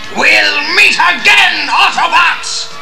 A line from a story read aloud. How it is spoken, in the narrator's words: He bellowed